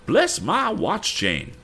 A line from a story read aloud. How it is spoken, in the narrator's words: exclaimed Mr